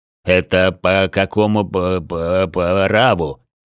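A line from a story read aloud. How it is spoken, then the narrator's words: Stuttering. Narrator (Russian): стал заикаться Глостер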